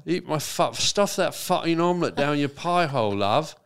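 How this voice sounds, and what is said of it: Put-on British accent. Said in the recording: “you're getting turned on by me doing a British accent”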